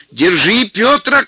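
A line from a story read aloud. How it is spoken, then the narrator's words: Old man shouting. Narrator (Russian): кричал дед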